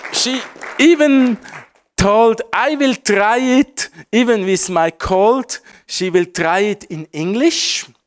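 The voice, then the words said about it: Strong foreign accent in English. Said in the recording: “My English is also not so good. My accent is quite strong.”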